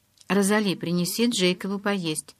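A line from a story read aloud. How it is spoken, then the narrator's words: Plain. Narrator (Russian): сказала Элис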